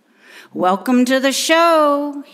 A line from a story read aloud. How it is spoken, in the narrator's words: yelled out